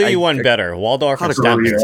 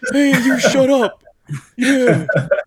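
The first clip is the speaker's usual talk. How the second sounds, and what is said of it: Grumpy old Muppet heckler voice. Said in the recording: “good Waldorf impersonation”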